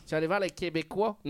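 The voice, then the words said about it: Badly done Québécois accent. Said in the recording (French): “je fais l'accent très très mal”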